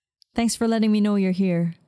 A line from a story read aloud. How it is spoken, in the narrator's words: he replied